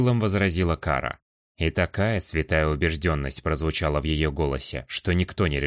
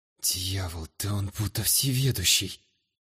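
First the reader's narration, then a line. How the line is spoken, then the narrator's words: Quiet whisper. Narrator (Russian): Тихо прошептал блондин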